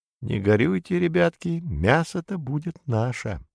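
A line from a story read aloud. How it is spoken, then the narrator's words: Sorrowful whisper. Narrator (Russian): Братцу-кролику, ох, как горько было расставаться со своей коровой, шепнул своим деткам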